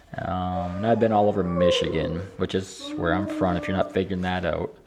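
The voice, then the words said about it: Northern Michigan accent. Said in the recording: “Out, see, got out. Sounds pretty far north. I'm like border Canada here, so it has a little bit of runoff. Plus Marion, Wisconsin ... So you got a lot of clash of accents there.”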